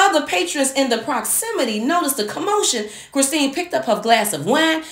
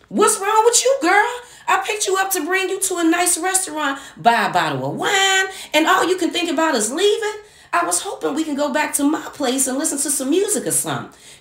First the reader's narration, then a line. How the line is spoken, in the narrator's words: Reginald shouted